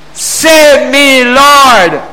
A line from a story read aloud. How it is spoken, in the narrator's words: he shouted